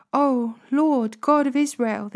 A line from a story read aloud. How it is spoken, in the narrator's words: they cried out